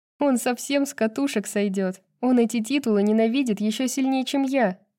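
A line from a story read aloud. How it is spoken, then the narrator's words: Hysterical laughter. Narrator (Russian): Брайс снова засмеялась, уже истеричнее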